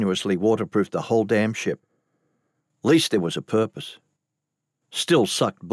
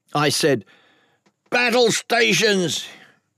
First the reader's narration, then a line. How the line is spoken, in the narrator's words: He roared